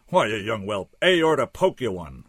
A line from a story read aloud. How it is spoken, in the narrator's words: roared the doc